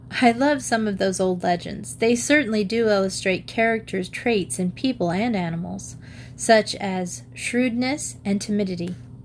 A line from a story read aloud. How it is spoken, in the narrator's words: Louise and Jean laughed, and Louise said